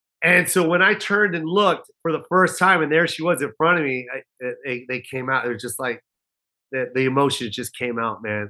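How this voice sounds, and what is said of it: Choked-up, emotional voice. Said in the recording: “I'm getting choked up right now saying it.”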